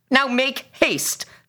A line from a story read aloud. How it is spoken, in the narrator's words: the officer shouted at the boy